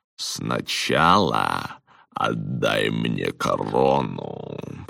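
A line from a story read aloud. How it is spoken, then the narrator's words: Purring. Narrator (Russian): промурлыкал Прюит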